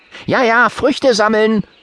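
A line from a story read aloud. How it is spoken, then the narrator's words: Eager anticipating call. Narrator (German): ruft Johannes ... voller Vorfreude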